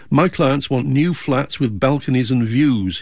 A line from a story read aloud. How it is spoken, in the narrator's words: he said